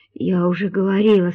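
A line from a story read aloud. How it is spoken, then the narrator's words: Hoarse. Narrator (Russian): сказала она хрипло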